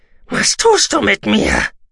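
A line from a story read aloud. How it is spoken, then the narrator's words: Roaring at girl. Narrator (German): brüllte er das Mädchen an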